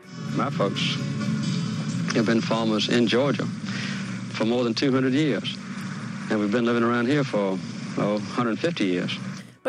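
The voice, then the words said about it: Southern American accent. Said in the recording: “Southern gentlemen ... that accent”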